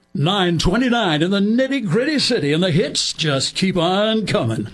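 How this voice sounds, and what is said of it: Excited radio DJ announcer voice. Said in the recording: “don't make me use my announcer voice. But what they did is the disc jockeys that they had to sound exciting”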